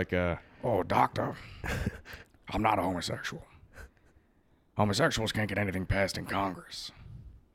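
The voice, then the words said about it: Imitates another person's voice, hoarse. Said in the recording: “my Al Pacino impression ... my voice hurts”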